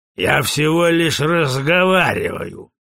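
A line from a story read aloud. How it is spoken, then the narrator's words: Sullen mutter. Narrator (Russian): угрюмо пробурчал Гутри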